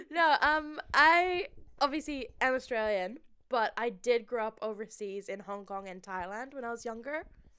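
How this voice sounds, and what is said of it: Mixed, not typically Australian accent. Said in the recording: “Your accent is clearly not Australian... It's clearly not... my accent's still weird... mixed. Very unique.”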